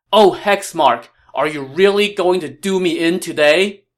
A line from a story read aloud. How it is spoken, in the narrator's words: Liu Bei shouted